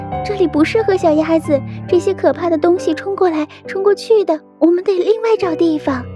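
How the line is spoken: Breathless. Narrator (Chinese): 他喘了一会儿，才说

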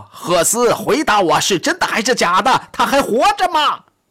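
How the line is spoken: Near shriek. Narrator (Chinese): 他几乎尖声喊道

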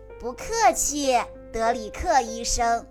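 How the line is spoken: Laughing, in unison. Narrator (Chinese): 他们四个都笑了，一起说道

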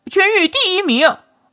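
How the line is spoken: Loud reading aloud. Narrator (Chinese): 秦小楼已经大声念了出来

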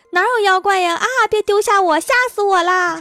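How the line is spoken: Frightened yelling while running. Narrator (Chinese): 狐狸也嗷的一声跟在后面跑，边跑边叫

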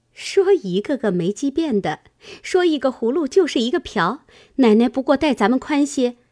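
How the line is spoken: Laughing. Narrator (Chinese): 银蝶笑道

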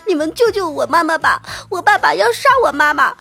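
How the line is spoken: Child crying, pleading. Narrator (Chinese): 我就哭着，就说

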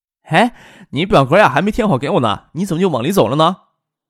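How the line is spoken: Calling out. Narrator (Chinese): 工作人员还喊住了他

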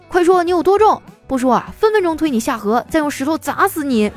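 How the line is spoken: Shouting. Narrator (Chinese): 曹冲 对大象喊

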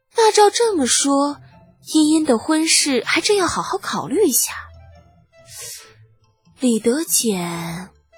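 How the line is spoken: Sighing. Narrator (Chinese): 崔氏……忍不住叹道

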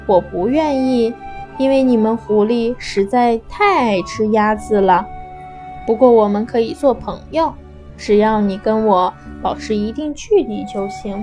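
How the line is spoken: Slow. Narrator (Chinese): 他慢慢的说

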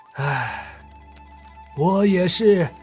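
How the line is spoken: Sad sighing. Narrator (Chinese): 郑天明此时也是有些伤感，他叹了口气道

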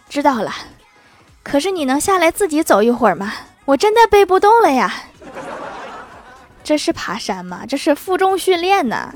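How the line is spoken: Breathless, panting. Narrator (Chinese): 郭大侠气喘吁吁地说

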